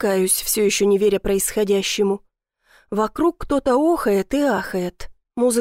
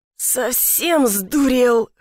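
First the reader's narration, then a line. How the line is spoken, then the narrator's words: Hoarse wheeze. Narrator (Russian): хрипит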